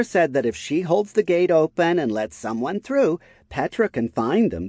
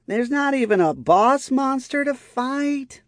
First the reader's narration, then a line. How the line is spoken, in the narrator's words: Lifra groaned